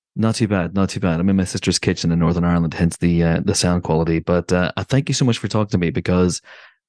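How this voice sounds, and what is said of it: Stronger Northern Irish accent. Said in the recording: “if I sound weird or my accent gets magically stronger”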